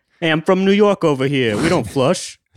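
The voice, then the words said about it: Put-on New York accent. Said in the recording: “How's my accent? I haven't worked on it at all.”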